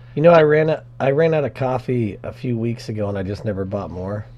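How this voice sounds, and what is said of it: Hoarse, strained voice. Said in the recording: “I get sick and lose my voice”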